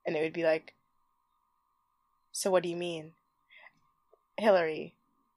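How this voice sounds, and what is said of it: NPR-style radio host voice. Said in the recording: “this is my impression of if I was to do, like, to host, like, an NPR-esque podcast, I would talk without everything like this.”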